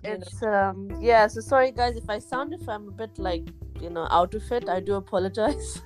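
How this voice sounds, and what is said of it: Sleepy, tired voice. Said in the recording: “I'm so sleepy. Can you hear it in my voice? ... I can hear it in your voice.”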